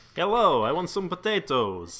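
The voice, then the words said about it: Put-on Russian accent. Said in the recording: “I think I can do my Russian accent.”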